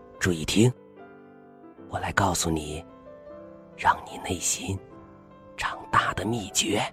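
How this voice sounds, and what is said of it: Quiet, whispered speech. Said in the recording (Chinese): “在阿丽的耳边小声说话”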